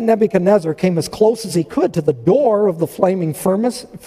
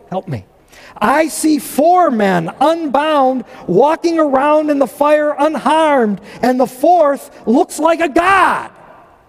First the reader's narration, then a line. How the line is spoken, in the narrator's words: Nebuchadnezzar shouted